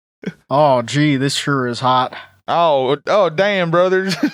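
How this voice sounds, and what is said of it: Put-on Southern accent. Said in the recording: “southern accent”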